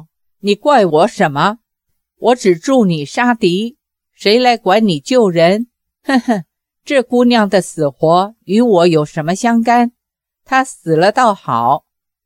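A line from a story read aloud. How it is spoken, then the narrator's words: Cold sneer. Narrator (Chinese): 裘千尺冷笑道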